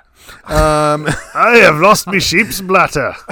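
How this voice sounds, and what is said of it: Put-on vaguely Scottish-like accent. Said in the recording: “Why am I talking like that? It's not even a Scottish accent.”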